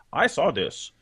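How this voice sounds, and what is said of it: Odd, put-on voice. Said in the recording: “Which is a weird voice to use. I'm sorry, I didn't mean to do that.”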